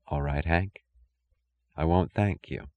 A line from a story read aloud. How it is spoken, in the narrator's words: She whispered